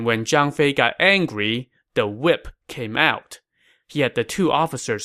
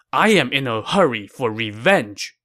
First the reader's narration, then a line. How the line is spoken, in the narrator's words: said angrily